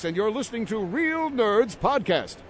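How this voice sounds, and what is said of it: Announcer voice. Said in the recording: “this is my announcer voice”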